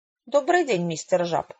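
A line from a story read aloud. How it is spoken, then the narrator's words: Cold greeting. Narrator (Russian): холодно поздоровалась Хэвишем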